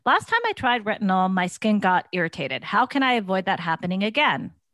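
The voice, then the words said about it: Wine mom character voice. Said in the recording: “character voice ... I'll do Wine Mom”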